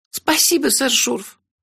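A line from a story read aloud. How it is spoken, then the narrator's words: Squeaky. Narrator (Russian): пискнула Кенлех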